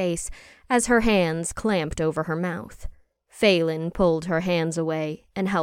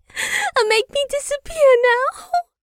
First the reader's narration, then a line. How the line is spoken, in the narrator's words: Jacqueline sobbed